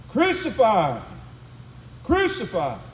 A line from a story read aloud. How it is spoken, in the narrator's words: the people began to shout